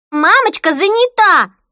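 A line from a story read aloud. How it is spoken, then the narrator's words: Shrill voice. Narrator (Russian): пронзительным голосом произнесла Хлоя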